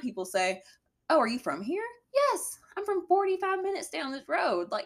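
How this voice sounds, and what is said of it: Strong Southern US accent. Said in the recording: “i have a very southern accent”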